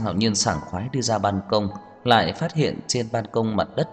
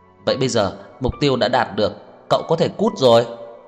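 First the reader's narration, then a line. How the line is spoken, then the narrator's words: Muffled shout. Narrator (Vietnamese): Tô Lạc Hoành ... lấy tay che điện thoại hét lên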